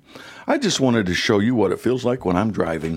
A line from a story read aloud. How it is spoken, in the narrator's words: The husband answers calmly